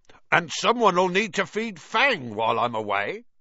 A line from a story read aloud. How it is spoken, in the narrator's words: said loudly